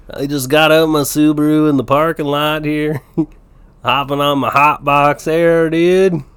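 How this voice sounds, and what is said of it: Put-on laid-back stoner accent. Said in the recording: “do that with like a Colorado stoner accent ... What does a Colorado stoner accent?”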